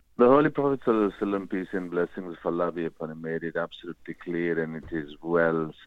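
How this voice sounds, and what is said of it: Strong Bradford English accent. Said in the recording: “I love the Bradford accent. It's very strong, but also very, it's good fun to listen to.”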